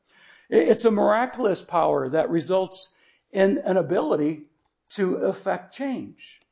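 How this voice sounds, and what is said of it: Strained, hoarse voice. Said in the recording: “it's the ability to get words out of my throat because I'm losing my voice.”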